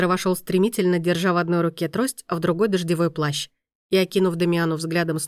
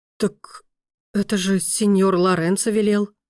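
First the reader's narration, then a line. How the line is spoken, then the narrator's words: Confused mutter. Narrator (Russian): Растерянно пробормотала экономка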